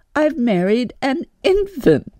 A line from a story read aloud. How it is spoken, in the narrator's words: she laughed